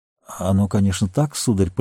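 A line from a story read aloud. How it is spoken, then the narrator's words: Embarrassed mumble. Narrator (Russian): пробормотал Сэм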